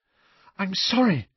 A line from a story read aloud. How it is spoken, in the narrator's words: Hermione gasped